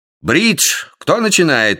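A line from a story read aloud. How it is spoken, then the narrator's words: Impatient shout. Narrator (Russian): нетерпеливо крикнул Эдди Литл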